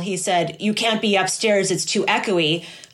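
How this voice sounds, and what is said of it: Impression of another person's voice. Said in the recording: “your Will impression”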